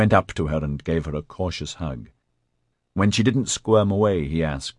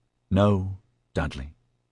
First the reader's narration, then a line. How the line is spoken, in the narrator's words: she said wearily